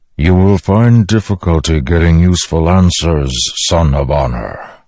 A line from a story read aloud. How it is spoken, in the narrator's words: the Stormfather rumbled